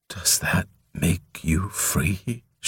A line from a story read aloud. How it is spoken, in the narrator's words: she demanded softly, bitterly